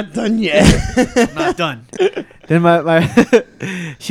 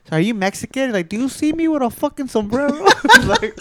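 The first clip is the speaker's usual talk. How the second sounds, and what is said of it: Attempted Salvadorian accent, sounds like De Niro. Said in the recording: “are you turning into the Godfather or what? ... I was trying to do like a Salvadorian accent. ... That was straight fucking De Niro.”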